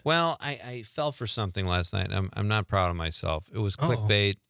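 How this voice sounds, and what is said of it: Sad, downcast voice. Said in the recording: “Why do you sound so sad?”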